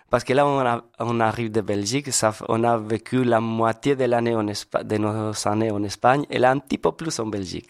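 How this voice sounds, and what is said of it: Spanish accent speaking French. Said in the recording (French): “vous êtes espagnols? ... C'est ça votre accent.”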